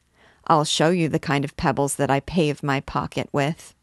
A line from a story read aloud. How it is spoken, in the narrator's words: Jeanne answered coldly